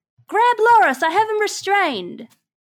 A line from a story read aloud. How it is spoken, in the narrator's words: yell out